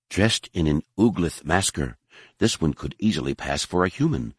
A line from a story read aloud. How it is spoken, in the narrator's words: she whispered to Vergere